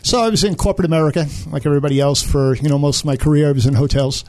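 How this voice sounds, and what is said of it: Brooklyn New York accent. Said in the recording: “you were not born in Parker, Colorado. I can tell by the accent. ... Brooklyn, New York.”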